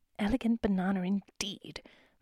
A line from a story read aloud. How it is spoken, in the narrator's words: muttered Mrs